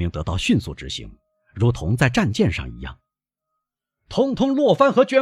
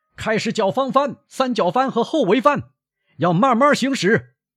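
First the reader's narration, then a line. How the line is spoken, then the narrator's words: Young sailor shouting. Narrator (Chinese): 年轻水手喊道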